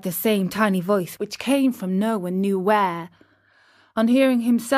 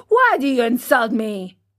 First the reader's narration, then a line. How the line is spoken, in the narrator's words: he said to him angrily